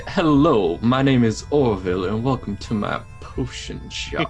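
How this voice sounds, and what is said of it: Put-on southern accent. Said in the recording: “I'm trying to do Claire's southern accent.”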